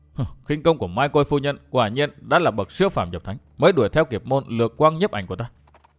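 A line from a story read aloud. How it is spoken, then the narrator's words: Startled, frightened muttering. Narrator (Vietnamese): giật mình kinh hãi, miệng lẩm bẩm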